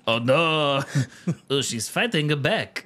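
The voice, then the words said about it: Put-on French accent. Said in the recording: “That's my French accent.”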